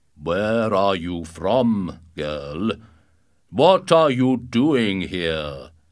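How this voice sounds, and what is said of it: Very loud, deep giant's voice. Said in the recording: “he asked in a very loud, deep voice.”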